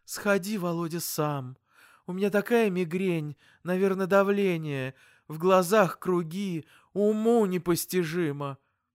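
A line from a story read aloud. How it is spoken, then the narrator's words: Dejected pleading voice. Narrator (Russian): Мама упавшим голосом взмолилась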